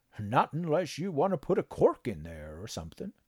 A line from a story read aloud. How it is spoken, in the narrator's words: the Sawbones had chuckled